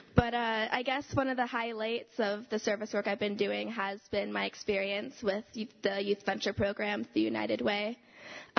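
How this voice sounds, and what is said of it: Hoarse, fading voice from a cold. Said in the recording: “excuse my voice because I have a cold ... it's starting to get lost somewhere”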